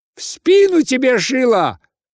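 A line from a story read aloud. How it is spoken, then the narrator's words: Crowd shouting curses. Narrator (Russian): кричала с бранью толпа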